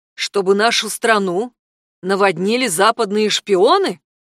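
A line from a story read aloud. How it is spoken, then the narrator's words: Loud enough to overhear. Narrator (Russian): произнес он достаточно громко, чтобы услышал Йорди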